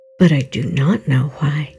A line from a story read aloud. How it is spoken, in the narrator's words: said Life